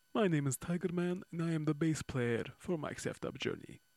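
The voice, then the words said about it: Comically exaggerated put-on accent. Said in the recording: “comically exaggerated and politically inconvenient accent”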